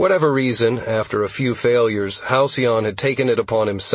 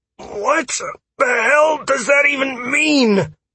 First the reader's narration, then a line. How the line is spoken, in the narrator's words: I barked, a bit testily